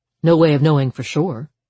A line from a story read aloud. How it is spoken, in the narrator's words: Harper said